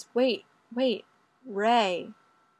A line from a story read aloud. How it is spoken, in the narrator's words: Fraser gasps and says